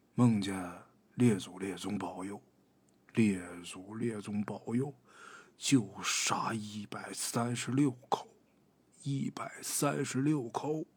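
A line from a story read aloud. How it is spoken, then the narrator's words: Quiet muttered prayer. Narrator (Chinese): 小声念叨着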